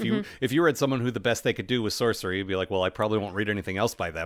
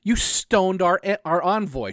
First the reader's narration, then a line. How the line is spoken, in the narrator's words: shouted Vorbis